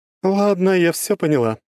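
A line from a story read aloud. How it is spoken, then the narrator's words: Laughing. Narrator (Russian): рассмеялась Круанна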